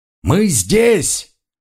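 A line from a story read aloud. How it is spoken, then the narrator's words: Loud shout. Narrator (Russian): громко крикнул Монброн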